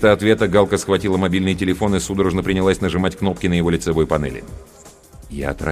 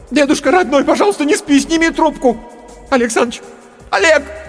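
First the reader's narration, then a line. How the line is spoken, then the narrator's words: Shouting. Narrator (Russian): она кричала мне в лицо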